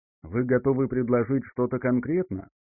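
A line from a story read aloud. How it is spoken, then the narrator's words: Dry question. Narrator (Russian): сухо спросила Изабелла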